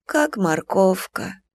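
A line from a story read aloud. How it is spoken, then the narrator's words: Quiet. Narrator (Russian): тихо отвечала Нюраня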